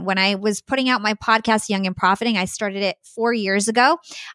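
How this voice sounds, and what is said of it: Polished radio-style voice. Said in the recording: “You definitely have the radio voice. So I hear that. I definitely hear that.”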